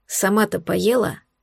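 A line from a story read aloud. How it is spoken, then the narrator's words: Quiet question. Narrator (Russian): спросил тихо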